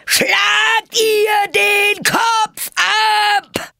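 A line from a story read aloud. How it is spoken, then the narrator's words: Queen roaring at full volume. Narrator (German): brüllte die Königin so laut sie konnte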